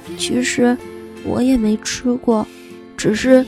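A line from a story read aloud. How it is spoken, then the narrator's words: Murmuring. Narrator (Chinese): 小白兔喃喃地说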